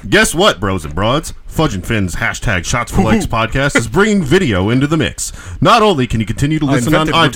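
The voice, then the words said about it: Exaggerated radio announcer voice. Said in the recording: “Should I do it like a super radio voice? ... Yes, absolutely. Do it like Don Imus.”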